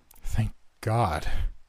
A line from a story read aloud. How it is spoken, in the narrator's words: I said with a relieved chuckle